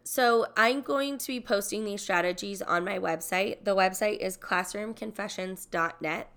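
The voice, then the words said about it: Stuffy, congested voice. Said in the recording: “Sorry for my voice today. I'm like getting stuffy ... taking a toll on my sinuses”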